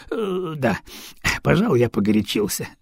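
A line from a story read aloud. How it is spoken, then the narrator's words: Sighing. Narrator (Russian): вздохнул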